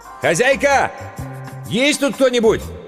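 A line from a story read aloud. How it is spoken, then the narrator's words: Shouted. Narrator (Russian): Иван прокричал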